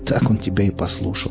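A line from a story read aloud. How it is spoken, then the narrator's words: Skeptical snort. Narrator (Russian): хмыкнул мытарь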